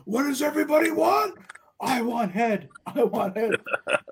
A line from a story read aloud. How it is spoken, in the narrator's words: start yelling